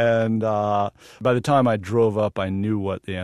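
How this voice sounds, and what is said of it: Usual voice. Nothing is said of it.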